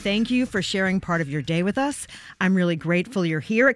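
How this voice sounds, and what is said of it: Hoarse voice. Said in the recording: “If I sound a little bit hoarse, it's because I was one of the many people at Radio City Music Hall cheering on”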